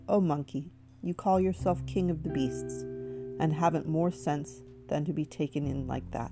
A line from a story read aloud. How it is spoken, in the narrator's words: the fox only laughed and said